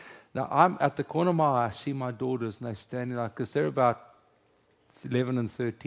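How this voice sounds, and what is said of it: Usual voice. Nothing is said of it.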